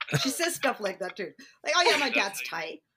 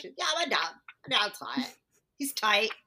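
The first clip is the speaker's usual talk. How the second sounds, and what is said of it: Impression of a young woman. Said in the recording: “That's how you do your impression of her.”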